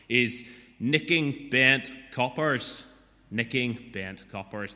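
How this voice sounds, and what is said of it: Attempted Belfast accent. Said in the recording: “I'm going to try the accent, of their chief superintendent ... that was an attempt at a Belfast accent”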